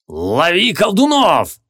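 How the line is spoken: Booming. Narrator (Russian): прогремел Легарден

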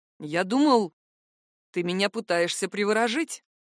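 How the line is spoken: Grumbling. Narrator (Russian): проворчал гад

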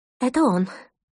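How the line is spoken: Agitated breathless whisper. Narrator (Russian): взволнованно выдохнула Лена

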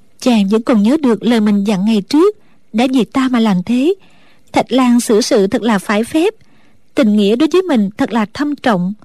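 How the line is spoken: Smiling, to herself. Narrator (Vietnamese): mỉm cười tự nhủ

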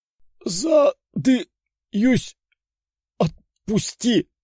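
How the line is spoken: Wheezed. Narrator (Russian): прохрипел парень

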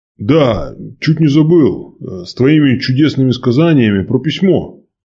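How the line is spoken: Exclaiming. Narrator (Russian): воскликнул воевода

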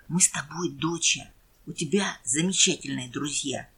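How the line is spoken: Whispering in ear. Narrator (Russian): отец прошептал на ухо

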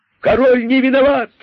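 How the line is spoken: Energetic joyful group shout. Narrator (Russian): закричали кролики с удвоенной энергией, радуясь, что им теперь не надо бунтовать

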